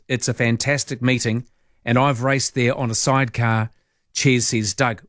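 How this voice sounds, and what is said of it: Italian accent. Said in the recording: “I love your Italian accent.”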